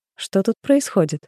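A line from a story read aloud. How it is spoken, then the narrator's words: Plain. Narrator (Russian): спросила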